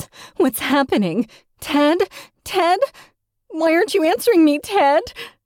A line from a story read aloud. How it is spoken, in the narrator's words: Claire gasps